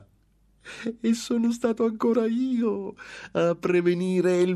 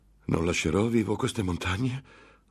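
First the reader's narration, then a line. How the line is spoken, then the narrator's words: Angry outburst. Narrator (Italian): sbottò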